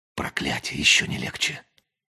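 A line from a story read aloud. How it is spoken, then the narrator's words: Quiet. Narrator (Russian): тихо сказал Джиллер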